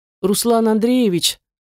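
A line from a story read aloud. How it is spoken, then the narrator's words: Man whining. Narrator (Russian): скулил мужик под конец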